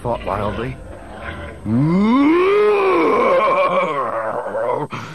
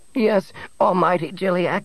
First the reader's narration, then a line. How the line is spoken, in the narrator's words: Nebel quavered